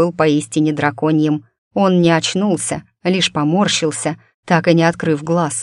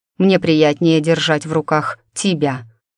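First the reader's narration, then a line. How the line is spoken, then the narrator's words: Amused snort. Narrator (Russian): хмыкнул он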